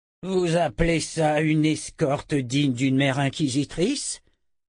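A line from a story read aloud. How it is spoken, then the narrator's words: Roaring. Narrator (French): rugit Zed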